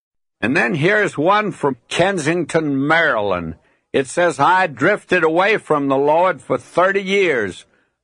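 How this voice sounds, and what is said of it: Slow Southern US drawl. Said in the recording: “your slow southern drawl ... people who hate my accent”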